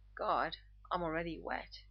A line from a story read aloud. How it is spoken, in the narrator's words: he rasps